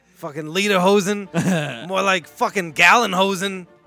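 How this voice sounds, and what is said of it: Impression of a comedy character voice. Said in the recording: “Best Chip Chipperson joke ... That's good impression”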